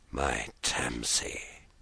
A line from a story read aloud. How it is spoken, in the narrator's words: he whispered heavily